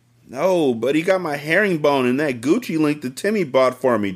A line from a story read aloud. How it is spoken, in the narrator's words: Tracy whined